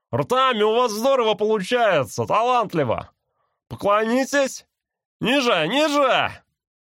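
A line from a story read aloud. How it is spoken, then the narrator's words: Yelling through cupped hands. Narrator (Russian): рупором приложил руки ко рту и завопил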